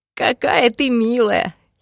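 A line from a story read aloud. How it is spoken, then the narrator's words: Giggling. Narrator (Russian): хихикал он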